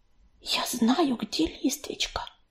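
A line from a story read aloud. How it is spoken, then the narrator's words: Whisper. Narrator (Russian): прошептала Белочка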